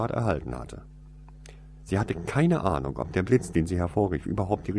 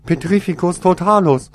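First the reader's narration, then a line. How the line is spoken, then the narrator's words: Shouted. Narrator (German): schrie Toriesa aus 2 Metern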